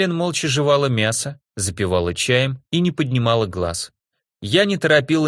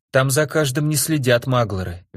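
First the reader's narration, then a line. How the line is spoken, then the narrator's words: Guilty sigh. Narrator (Russian): виновато вздохнула Мэлен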